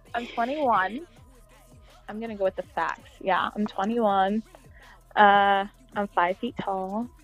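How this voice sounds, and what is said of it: Slight Texan southern twang. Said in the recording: “my little southern twang comes from Texas”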